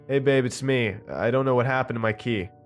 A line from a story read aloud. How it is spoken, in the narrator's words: said in a somewhat loud voice